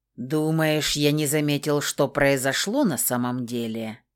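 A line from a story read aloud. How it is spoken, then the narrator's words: Hissing winged creature. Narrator (Russian): Прошипел крылатый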